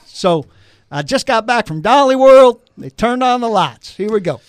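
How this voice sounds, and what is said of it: Put-on Southern US accent. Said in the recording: “I should talk in my southern accent.”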